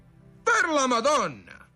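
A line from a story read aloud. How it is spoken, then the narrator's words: Onlookers exclaiming together. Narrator (Italian): esclamarono quelli che stavano a vedere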